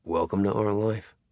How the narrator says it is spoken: Ambrose said bitterly

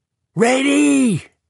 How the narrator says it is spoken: With the pomp of a West Point cadet, he screamed

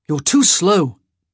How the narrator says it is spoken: Benedict snapped

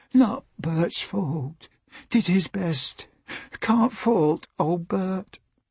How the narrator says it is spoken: murmuring

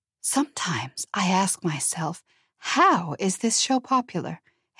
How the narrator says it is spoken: Harriet whispered

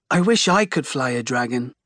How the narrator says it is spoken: Becca says with a sigh

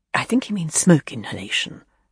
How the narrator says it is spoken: Clive Barnes whispered quickly

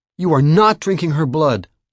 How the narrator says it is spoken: Josh yelled, horrified

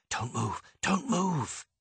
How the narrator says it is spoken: whispered

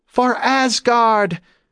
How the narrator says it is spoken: The Viking woman yelled

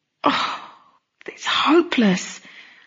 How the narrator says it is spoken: let out a long moan

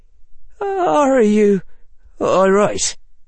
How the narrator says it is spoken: said Seamus in a wavering voice

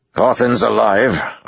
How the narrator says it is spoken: Arganda said with a grunt

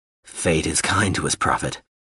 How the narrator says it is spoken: the man said gruffly

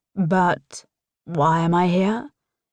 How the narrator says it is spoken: Tristan drawls

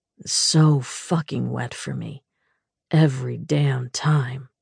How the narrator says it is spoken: he murmured

